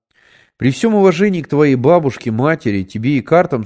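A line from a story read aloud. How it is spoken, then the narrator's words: Plain. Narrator (Russian): сказал я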